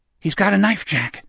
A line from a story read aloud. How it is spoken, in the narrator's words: Richard whispered